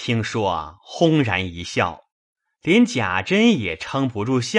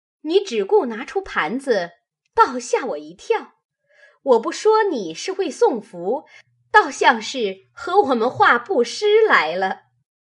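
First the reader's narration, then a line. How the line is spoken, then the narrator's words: Laughing. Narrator (Chinese): 凤姐笑道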